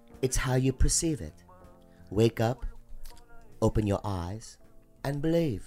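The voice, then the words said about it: Put-on fantasy foreign accent. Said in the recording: “That's not an English accent. ... It's supposed to be a different accent from a different land. ... In a different time period and a different dimension”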